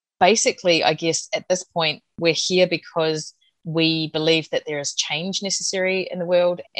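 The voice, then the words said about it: New Zealand accent. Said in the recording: “I'm the one with the Kiwi accent.”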